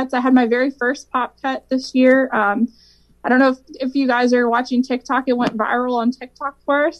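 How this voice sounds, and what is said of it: Country-style accent. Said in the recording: “It's not a country song. I can't sing it. You've heard my accent.”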